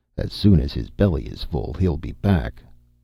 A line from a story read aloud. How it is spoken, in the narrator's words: muttered Conan